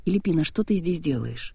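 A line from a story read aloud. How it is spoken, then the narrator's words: Soft question. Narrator (Russian): мягко спросил Виржил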